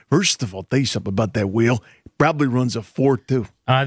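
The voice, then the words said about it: Jon Gruden impression. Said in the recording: “John Gruden.”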